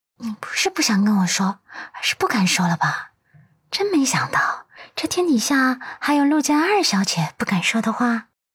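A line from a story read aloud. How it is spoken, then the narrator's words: Sly, lowered voice. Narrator (Chinese): 阮南希清澈的眸中闪过一丝狡黠，也压低声音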